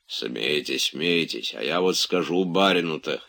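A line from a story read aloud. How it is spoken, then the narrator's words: Hoarse wheezing. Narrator (Russian): хрипел Захар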